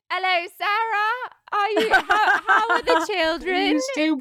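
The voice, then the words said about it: Imitates another person's voice, British-sounding. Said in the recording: “It's sort of British... Isn't that a spot on of your mum?... It's actually pretty good.”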